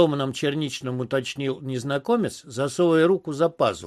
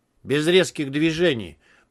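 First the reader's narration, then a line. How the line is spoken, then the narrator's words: Cold warning. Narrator (Russian): предупредил я холодно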